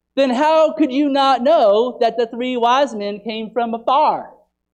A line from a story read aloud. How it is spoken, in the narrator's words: She yelled back